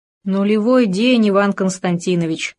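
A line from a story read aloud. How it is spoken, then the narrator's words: Sighing. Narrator (Russian): вздохнул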